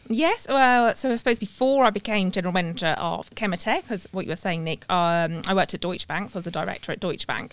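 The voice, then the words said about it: British accent. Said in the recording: “I don't have the Aussie twang ... Somewhere in the UK.”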